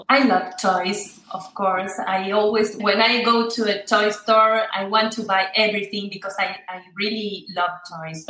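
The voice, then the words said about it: Argentine Spanish accent in English. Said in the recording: “your accent ... I'm from Argentina”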